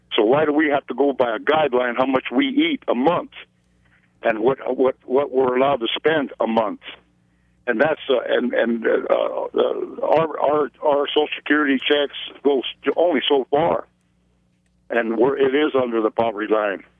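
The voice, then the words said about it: Emotional, upset voice. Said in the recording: “I got a little emotional there ... This is emotional ... speaking from the heart”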